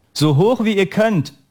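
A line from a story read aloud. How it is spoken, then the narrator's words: Calling out. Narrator (German): rief der Trainer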